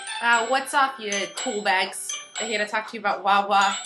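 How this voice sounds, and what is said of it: Put-on New Jersey accent. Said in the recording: “This is my New Jersey accent.”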